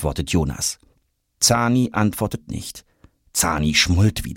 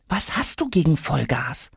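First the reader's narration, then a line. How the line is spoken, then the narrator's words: Quiet question. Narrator (German): fragt Jonas genauso leise zurück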